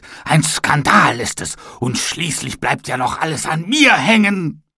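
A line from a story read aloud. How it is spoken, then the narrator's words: Angry shout. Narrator (German): schrie er wütend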